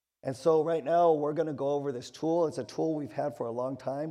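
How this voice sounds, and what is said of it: Weak voice. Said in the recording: “my voice is a little weak right now”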